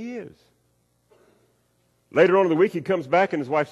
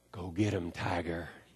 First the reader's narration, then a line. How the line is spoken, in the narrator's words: she whispers into his ear